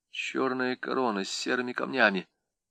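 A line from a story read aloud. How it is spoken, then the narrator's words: Muttering. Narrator (Russian): пробормотал он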